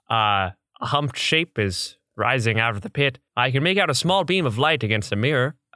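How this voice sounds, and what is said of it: Classic radio voice, transatlantic accent. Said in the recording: “a kind of classic radio voice ... exactly like a transatlantic accent”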